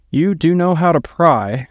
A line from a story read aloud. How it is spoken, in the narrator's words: Inara sighed and hesitated